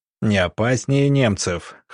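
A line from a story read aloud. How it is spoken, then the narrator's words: Chuckling. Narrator (Russian): хохотнув, Сидоренко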